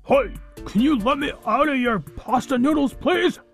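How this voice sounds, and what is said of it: Muffled character voice. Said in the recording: “in a muffled voice”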